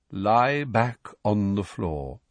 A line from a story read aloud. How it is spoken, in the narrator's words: said Firenze in his calm voice